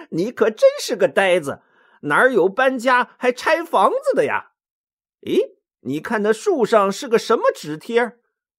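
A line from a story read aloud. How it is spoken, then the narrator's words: Laughing uproariously. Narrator (Chinese): 孙悟空忍不住笑得前仰后合的说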